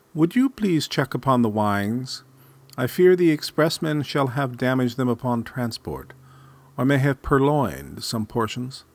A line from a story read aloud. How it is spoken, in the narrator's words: cooed his mother